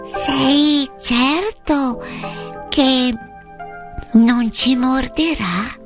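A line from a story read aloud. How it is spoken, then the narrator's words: Timid small voice. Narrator (Italian): la regina dei topi chiese con voce timida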